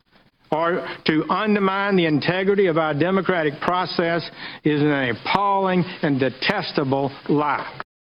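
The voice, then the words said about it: Alabama drawl, not very tough-sounding. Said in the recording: “that Alabama, Alabama, the uh, drawl on the on your on your on your uh, in your accent, it's hard to sound really tough”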